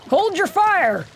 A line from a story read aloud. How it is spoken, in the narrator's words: he yells, struggling to keep the horses under control